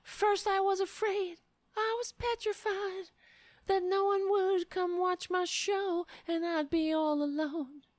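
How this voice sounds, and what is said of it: Singing like a pop star. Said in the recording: “Why do I sound like a pop star?”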